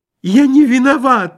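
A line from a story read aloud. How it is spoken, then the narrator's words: Squealing. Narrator (Russian): запищал Лоханкин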